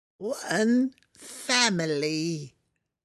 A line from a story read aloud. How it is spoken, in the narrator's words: it croaked